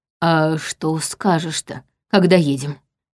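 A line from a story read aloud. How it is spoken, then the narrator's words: Quiet question. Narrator (Russian): негромко спросил Черим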